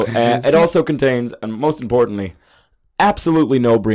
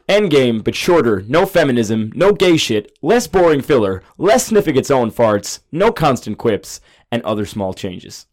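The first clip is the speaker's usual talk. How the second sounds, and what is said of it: Put-on American accent. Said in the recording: “I'm going to do it in an American accent because I assume he's American.”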